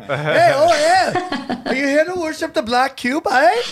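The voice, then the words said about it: Bad put-on Canadian accent. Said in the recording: “That was the worst Canadian accent ever.”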